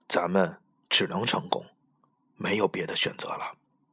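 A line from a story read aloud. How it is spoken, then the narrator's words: Soft. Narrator (Chinese): 老于……轻声说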